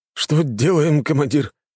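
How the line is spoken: Frightened speech. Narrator (Russian): испуганно проговорил заместитель

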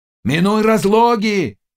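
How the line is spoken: Shouting after someone. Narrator (Russian): крикнул вслед ему Заглоба

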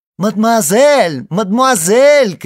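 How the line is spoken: Shouting from behind trees. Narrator (Russian): кричал чей-то голос из-за деревьев

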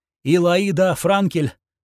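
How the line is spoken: Trembling voice. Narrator (Russian): дрожащим голосом ответила она

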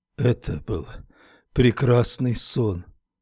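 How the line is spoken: Muttered. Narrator (Russian): пробормотал

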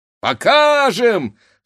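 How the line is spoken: Young men shouting together. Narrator (Russian): закричали парубки

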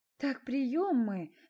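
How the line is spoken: Sighing. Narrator (Russian): вздохнула Света

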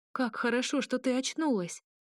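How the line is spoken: Joyful chirping. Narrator (Russian): радостно защебетала Лилана

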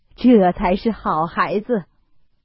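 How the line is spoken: Laughing. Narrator (Chinese): 贾母笑道

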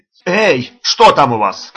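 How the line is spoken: Policeman shouting from balcony. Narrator (Russian): крикнул милиционер с балкона

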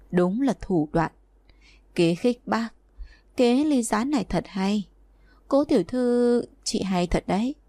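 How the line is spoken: Soft sigh. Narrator (Vietnamese): Mạc Tử Huyên nhẹ nhàng than một tiếng

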